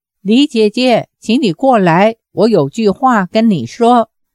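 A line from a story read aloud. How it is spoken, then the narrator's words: Calling out. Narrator (Chinese): 黄蓉叫道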